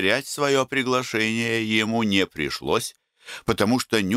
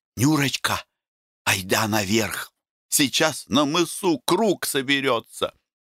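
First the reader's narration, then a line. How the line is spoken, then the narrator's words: Whispered. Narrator (Russian): Вася шепнул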